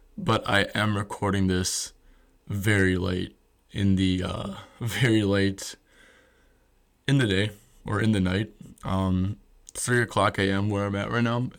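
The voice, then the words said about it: Quiet, monotone voice. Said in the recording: “We're speaking a more monotone, quiet voice. I guess I kind of do speak in a pretty monotone voice”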